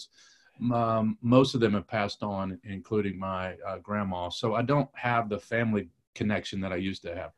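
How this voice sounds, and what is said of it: Mixed regional American accent, part Kentucky. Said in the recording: “your accent ... it's not Detroit, and it's not North Carolina ... So it's a little bit Kentucky.”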